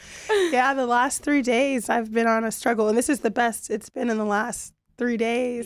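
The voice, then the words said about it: Hoarse, strained, mostly lost voice. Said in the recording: “My voice is gone. ... I've had to listen to this voice for the last 3 days, and it does sound better. ... It sounds way better.”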